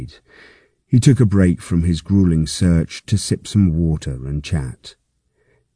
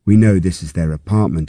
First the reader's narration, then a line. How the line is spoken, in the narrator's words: he says